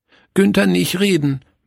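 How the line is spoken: Sad. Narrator (German): meinte traurig

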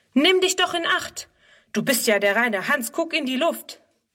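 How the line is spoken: Calling out. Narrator (German): ruft er

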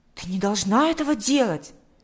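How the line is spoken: Exclaimed. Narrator (Russian): воскликнул Миша

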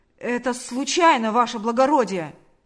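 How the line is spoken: Shouted. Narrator (Russian): закричал он

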